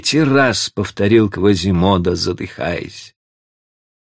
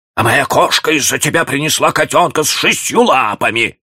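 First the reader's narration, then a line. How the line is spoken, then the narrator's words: Old woman shrieking. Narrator (Russian): завизжала какая-то старуха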